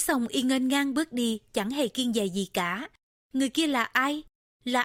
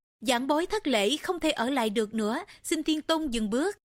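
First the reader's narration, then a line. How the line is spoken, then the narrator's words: Smiling, polite. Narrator (Vietnamese): mỉm cười, hành lễ rồi nói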